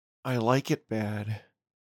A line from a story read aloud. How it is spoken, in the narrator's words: returned softly